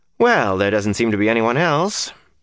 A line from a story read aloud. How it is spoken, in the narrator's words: Matt said dryly